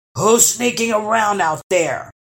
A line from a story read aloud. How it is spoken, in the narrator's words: bellowed the first troll